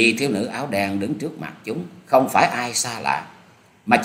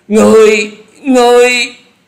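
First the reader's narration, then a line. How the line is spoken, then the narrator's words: Terrified group cry. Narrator (Vietnamese): bốn gã cuồng ma đều không hẹn mà la lên kinh hãi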